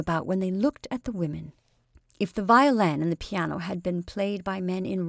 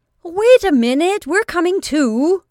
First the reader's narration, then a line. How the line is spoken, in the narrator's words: the artist shouted to him